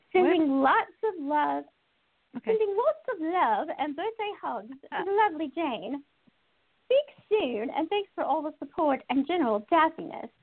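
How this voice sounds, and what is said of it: Poor attempt at British accent. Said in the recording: “I should have read that with a British accent ... Wow, that was terrible”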